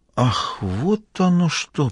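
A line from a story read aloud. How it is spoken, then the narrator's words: Dazed drawl. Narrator (Russian): протянул Мазур, все еще в некотором обалдении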